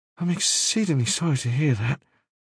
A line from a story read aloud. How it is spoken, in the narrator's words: Staines mumbled